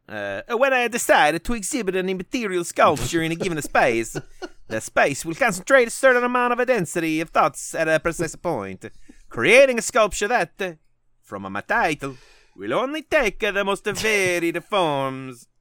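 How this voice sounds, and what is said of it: Put-on Italian accent, not good. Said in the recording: “I'm going to try to do it in an Italian accent... Sorry, that was not, I guess, good.”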